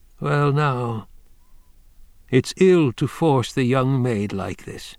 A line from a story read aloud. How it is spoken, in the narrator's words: he said to Cuckoo, his voice mild